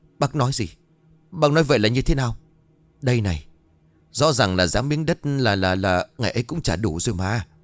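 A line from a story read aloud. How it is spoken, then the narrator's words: Trembling question. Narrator (Vietnamese): Ông bản run rẩy, hỏi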